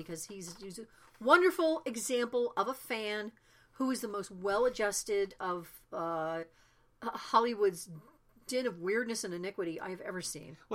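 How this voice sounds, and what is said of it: Choked-up, emotional voice. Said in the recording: “getting choked up”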